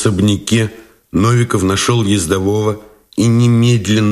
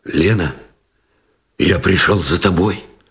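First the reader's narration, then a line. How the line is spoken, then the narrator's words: Muffled hoarse voice. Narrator (Russian): Глухо и хрипло выговорил Новиков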